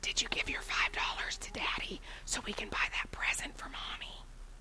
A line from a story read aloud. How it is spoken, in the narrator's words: Kids whispering